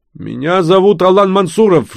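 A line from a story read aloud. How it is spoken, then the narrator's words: Shouting. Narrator (Russian): кричал шейх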